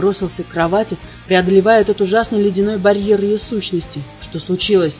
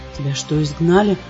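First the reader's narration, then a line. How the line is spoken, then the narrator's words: Despairing whisper. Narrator (Russian): прошептал, чувствуя, как отчаяние охватывает меня с ног до головы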